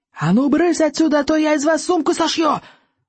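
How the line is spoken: Screaming. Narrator (Russian): завопил стоек

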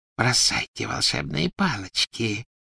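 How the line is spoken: Whisper. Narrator (Russian): прошептала она

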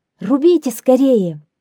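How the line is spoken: Shouting. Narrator (Russian): крикнула она

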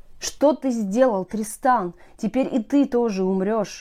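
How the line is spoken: Sorrowful exclamation. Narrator (Russian): горестно воскликнула Изольда

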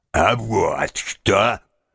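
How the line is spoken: Deep bass voice. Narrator (Russian): сказал густым басом

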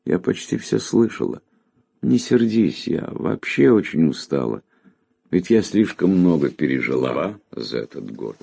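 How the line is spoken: Tender, sad. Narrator (Russian): Очнувшись, она ласково и грустно ответила

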